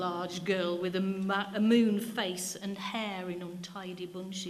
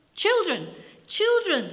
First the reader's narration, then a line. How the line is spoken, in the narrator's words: exclaimed the vicar